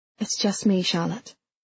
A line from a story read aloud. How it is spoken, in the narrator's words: she whispered